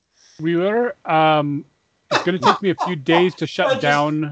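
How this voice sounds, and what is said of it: Switches into a character accent. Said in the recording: “she switched into her accent”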